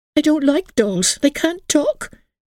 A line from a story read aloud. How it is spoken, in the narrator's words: exclaimed Emily